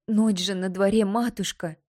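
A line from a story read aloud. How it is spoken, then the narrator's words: Pleading. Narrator (Russian): взмолилась она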